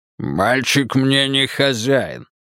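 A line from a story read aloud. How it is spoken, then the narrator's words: Growling. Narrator (Russian): рыкнул Тул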